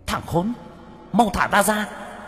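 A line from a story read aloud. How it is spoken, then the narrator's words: Child's hateful hiss. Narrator (Vietnamese): Đứa bé mặt mày dữ tợn, căm thù nhìn bác cổ, rít lên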